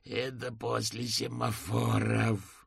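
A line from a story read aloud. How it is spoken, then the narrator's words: Groaning in frustration. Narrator (Russian): застонал он с досады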